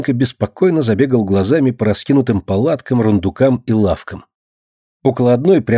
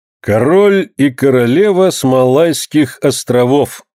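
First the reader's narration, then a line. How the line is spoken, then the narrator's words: Loud reading aloud. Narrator (Russian): громко прочел капитан наверху балагана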